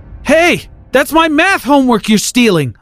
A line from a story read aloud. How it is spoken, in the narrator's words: I yelled after him